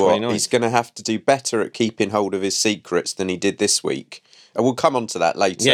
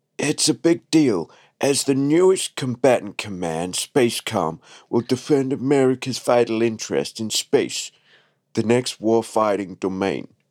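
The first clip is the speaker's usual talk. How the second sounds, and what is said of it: Imitates another person's voice. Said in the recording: “your Trump impression ... It sounded like Sean Connery.”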